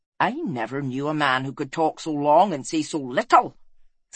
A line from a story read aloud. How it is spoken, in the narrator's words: snapped Fel